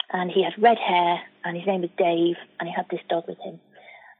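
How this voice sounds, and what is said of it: Mancunian accent. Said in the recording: “I'm a Mancunian. I've been born and bred in Manchester. You can probably tell by the accent.”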